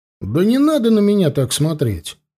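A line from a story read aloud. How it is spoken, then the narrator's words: Scoffing grunt. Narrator (Russian): хмыкнул Аюр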